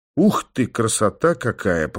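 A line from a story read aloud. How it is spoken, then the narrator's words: Muttered. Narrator (Russian): пробормотал я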